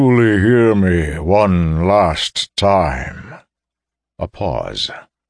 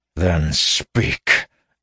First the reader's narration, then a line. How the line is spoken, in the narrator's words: he snarled